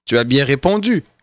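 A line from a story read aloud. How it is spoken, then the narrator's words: Plain. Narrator (French): lui dit Jésus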